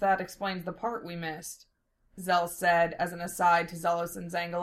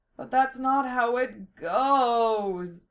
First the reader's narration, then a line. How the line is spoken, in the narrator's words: Zangalus moaned